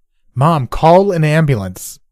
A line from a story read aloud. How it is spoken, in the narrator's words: I yelled